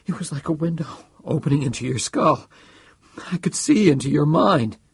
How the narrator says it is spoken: said, almost choking

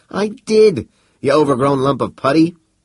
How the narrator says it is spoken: howled Seifen

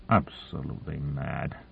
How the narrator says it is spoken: Morrison muttered

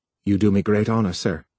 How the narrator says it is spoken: said

